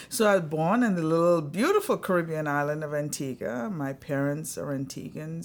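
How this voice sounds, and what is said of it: Slight accent. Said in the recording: “an accent, a slight accent.”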